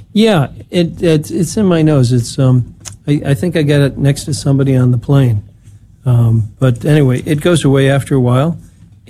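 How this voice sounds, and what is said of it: Congested, stuffy-nosed voice. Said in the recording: “You sound like you have a cold.”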